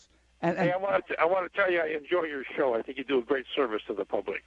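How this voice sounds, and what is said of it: Slight Dutch-sounding accent. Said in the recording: “You have a slight accent. Are you from the Netherlands? ... you have the same accent as they do”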